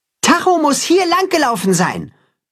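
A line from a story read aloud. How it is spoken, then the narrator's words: Calling toward the pasture. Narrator (German): ruft er Richtung Weide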